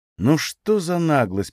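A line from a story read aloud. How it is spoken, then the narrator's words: Mutter. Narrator (Russian): пробормотал Гарано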